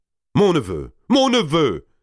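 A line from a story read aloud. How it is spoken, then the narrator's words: Exclaimed. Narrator (French): s'écria Valois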